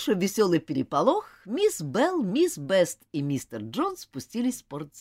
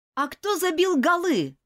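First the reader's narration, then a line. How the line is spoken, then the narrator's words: Shouted out. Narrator (Russian): выкрикнул Джон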